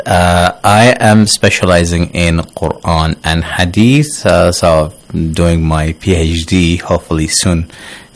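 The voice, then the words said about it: Australian-accented English. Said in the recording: “I am from Australia, as you can tell from my accent.”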